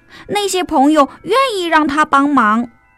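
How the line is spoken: Shouting. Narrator (Chinese): 松鼠大叫

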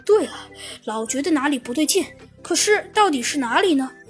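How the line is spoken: Sighing. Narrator (Chinese): 唉，猴子警长叹了口气

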